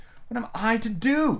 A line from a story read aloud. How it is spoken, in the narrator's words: exclaimed Alice, looking about in great perplexity